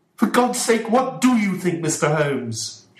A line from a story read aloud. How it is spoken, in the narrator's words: shouted Mr